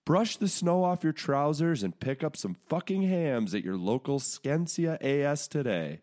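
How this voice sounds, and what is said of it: Put-on Scandinavian accent. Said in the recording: “Thank you to our Scandinavian listeners. I think I nailed the accent as well. You won't even know that I'm American.”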